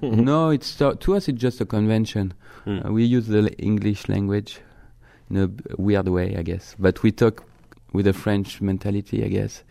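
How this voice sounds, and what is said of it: French accent. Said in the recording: “you can talk in that French accent all day”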